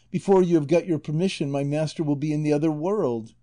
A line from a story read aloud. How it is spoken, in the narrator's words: exclaimed Maritornes